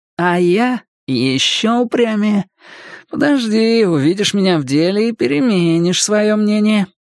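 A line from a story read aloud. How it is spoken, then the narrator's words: Purr. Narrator (Russian): промурлыкал он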